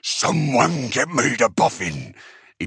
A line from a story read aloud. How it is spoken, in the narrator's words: he bellowed